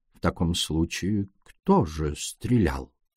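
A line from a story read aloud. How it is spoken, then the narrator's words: Soft inquiry. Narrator (Russian): мягко осведомился Пуаро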